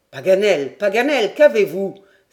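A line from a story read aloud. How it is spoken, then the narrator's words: Exclaiming. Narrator (French): s'écria Glenarvan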